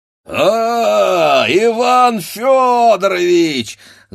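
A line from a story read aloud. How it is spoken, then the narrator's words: Shouting, stout man. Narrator (Russian): закричал толстый Григорий Григорьевич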